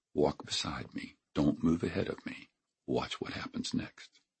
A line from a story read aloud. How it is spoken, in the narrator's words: I whispered